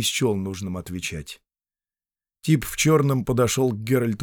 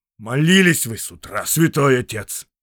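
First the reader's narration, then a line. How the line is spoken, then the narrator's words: Angry. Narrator (Russian): сердито сказал Седобородый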